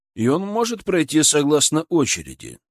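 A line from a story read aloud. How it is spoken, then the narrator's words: Calm reply. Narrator (Russian): также спокойно ответил служитель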